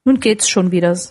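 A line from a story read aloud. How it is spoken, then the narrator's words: Plain. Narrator (German): sagte Scratchits Frau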